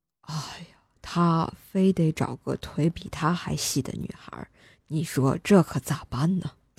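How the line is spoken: Old man, long sigh. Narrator (Chinese): 爷爷长叹一声，接着说道

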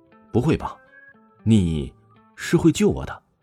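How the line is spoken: Incredulous. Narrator (Chinese): 王峰不敢相信的说道

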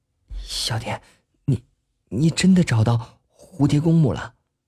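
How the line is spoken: Sudden hushed question. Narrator (Chinese): 双双突然压低了声音问道

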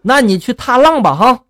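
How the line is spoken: Furious. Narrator (Chinese): 农民伯伯听了之后就大大怒了哈，然后就说了

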